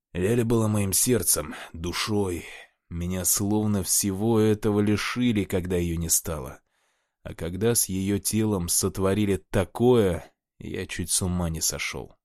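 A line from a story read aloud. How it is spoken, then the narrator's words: Heavy sigh, sad. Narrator (Russian): тяжело вздохнул и с грустью произнес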